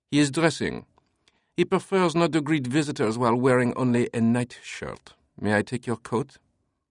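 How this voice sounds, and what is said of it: Thick French accent. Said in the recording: “his accent thick French”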